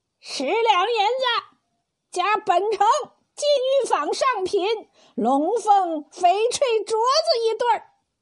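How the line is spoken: Loud straining shout. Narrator (Chinese): 有位公子扯着喉咙喊道

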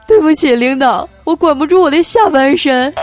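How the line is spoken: Sudden wailing sobs. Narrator (Chinese): 小黑忽然嚎啕大哭啊，跟怪叔叔说

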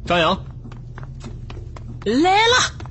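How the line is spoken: Satisfied call. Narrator (Chinese): 叶川满意的叫道

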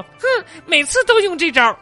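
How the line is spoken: Indignant girl, stopped crying. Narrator (Chinese): 小女孩马上止住了哭声，愤愤不平的说

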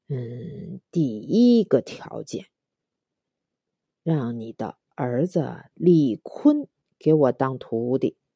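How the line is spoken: Slow and drawn-out. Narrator (Chinese): 温师傅慢吞吞的说

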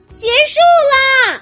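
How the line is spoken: Shouting. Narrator (Chinese): 艾斯梅拉达大喊一声

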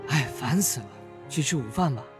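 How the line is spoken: Irritable, low. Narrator (Chinese): 张明瑞烦躁地低声说

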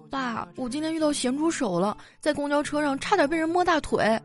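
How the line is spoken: Tearful voice. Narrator (Chinese): 我就带着哭腔跟他说

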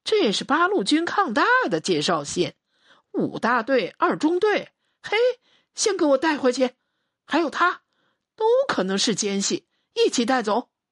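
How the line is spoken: Laughing. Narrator (Chinese): 连长笑了

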